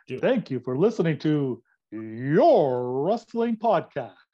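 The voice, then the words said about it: Exaggerated radio announcer voice. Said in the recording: “The radio voice ... I just want to give it my best radio voice go”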